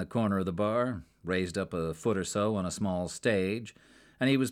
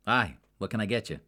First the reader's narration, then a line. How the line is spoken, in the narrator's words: asked